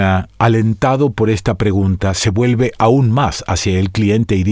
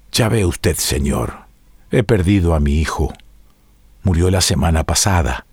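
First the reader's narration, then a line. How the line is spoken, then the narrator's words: Strained, choked voice. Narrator (Spanish): Yona hace un nuevo esfuerzo y contesta con voz ahogada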